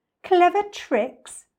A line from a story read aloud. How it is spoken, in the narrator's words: cried the not-so-big one